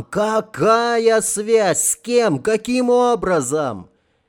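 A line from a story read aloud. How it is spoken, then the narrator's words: Shouting over noise. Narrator (Russian): перекрикивая совершенно несолидный шум, мгновенно заполнивший помещение, закричал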